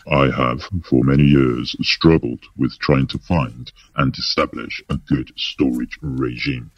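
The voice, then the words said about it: Exaggerated deep voice. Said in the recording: “I'm going to say this in a deep voice.”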